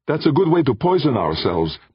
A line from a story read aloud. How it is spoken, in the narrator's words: Defia blurted